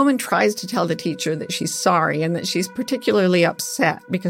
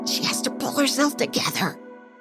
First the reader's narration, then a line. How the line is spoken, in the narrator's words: whispering